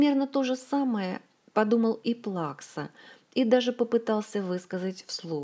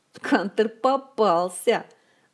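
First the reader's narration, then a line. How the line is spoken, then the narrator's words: Drunken eerie laughter. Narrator (Russian): С жутким нетрезвым хохотом объявил он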